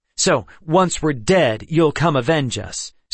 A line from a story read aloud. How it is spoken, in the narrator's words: Seth said hotly